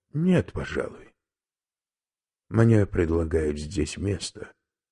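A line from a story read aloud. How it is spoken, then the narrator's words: Plain. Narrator (Russian): сказал профессор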